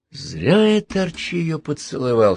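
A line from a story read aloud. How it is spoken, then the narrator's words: Whisper. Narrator (Russian): шепнул Перельман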